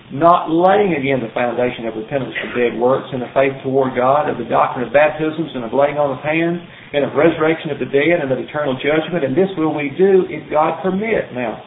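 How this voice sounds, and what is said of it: Reads very quickly. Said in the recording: “I read that quickly”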